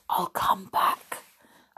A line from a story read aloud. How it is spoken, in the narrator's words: whispered